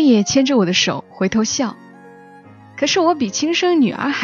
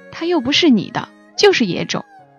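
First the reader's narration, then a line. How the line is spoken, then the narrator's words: Muttering. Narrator (Chinese): 有人嘀咕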